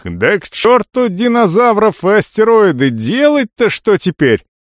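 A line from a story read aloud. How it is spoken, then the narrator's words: Yelling at top of lungs. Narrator (Russian): А третьи, наиболее рациональные, тут же орали во всю глотку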